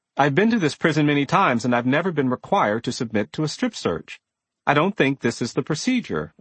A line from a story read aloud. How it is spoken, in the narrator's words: I said more firmly